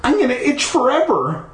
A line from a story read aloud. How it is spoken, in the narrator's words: I wailed